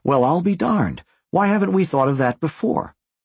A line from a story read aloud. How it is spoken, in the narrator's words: as if they had rehearsed their speech, they exclaimed simultaneously